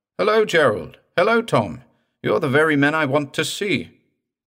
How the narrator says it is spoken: called out

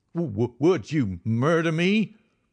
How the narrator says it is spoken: he stammered

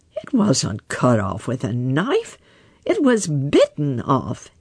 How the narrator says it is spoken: exclaimed

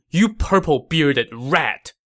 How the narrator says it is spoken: Guan Yu shouted sternly

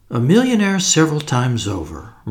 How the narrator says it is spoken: murmured Kramanin

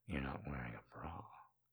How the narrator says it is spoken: he whispers

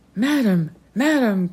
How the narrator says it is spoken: cried the colonel in torture

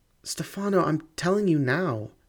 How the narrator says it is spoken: she cried

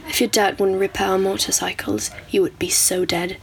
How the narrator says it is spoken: he whispered furiously

